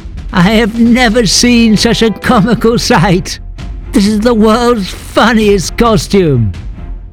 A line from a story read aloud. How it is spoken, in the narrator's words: laughed the mayor